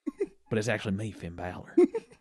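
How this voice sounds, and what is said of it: Put-on Southern accent impression. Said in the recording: “has a southern accent in this situation ... this is my AJ Styles impression”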